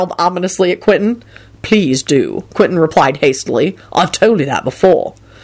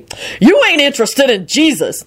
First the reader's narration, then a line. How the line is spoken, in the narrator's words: Lucretia shouted back